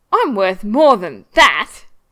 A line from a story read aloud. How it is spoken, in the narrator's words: Steed exclaims with a huff